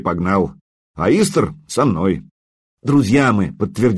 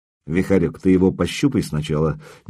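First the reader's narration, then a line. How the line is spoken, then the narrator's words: Quiet. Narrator (Russian): негромко произнес я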